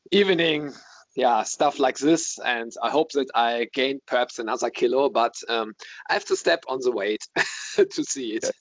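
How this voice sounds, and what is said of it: Accent similar to Daniel Farke's. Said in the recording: “your accent, I've been thinking about this, and I've been trying to work out where I've heard a similar accent ... Daniel Farker ... He's actually not from Essen, where you are, but it's about an hour away.”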